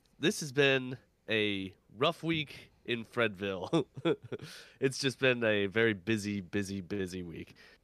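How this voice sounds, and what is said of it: Congested, sick-sounding voice. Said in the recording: “I am sick. I am very sick. You will probably hear it in my voice. I have a cold. ... head coldy as heck.”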